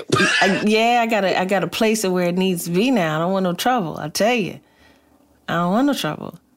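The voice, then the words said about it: Country accent slipping in. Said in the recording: “I have a country in my mouth. ... I'm doing dialect coaching, so I'm slipping in and out occasionally.”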